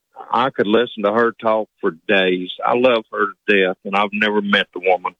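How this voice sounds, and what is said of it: Hillbilly accent. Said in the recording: “Do you think you have an accent? ... Yes, sir. I know I do. I'm a hillbilly.”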